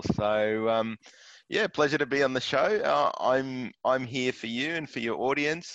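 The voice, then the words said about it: Australian accent. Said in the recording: “I'm detecting an Aussie accent.”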